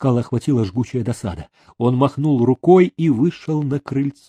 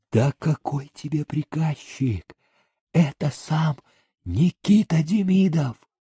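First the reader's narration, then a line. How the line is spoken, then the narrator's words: Whispering. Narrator (Russian): писчик зашептал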